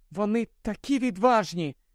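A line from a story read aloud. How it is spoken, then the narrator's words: Admiring sigh. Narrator (Ukrainian): захоплено зітхнула Герміона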